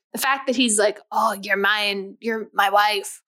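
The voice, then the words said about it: Put-on Scottish accent. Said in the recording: “do the Scottish accent ... That's like the third time you've done the Scottish accent.”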